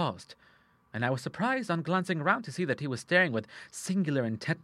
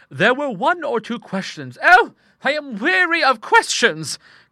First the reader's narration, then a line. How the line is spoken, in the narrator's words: cried Miss Cushing impatiently